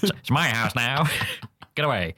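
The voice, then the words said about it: Imitates another person's voice. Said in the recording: “my Leo Varadkar impression ... it's flawless ... Sublime”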